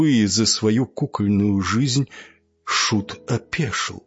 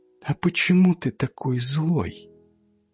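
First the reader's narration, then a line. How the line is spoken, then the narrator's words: Quiet question. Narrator (Russian): Она тихо спросила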